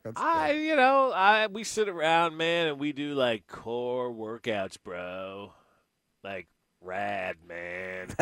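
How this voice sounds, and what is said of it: Laid-back surfer-dude voice. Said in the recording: “That's your D Ford impression?... You should work on that before the show... D Ford the surfer.”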